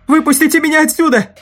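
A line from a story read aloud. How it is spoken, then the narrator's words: Yelled. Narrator (Russian): завопил младший из них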